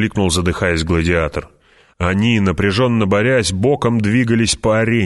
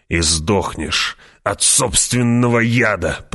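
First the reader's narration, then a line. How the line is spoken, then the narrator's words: Slave growling. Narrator (Russian): прорычал раб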